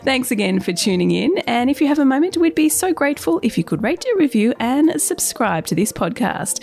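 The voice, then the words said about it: Unwell, strained voice. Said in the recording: “I hope my voice is a little better by then”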